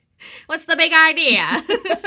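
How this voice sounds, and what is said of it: Put-on transatlantic accent. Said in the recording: “that was our transatlantic accent.”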